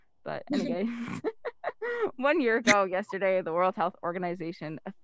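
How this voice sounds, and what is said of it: Usual voice. Nothing is said of it.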